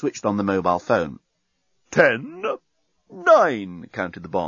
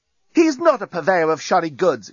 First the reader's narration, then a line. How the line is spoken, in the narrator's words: exclaimed Lucy, who, if the truth were told, was a bit hacked off by the reaction to Nettie's entrance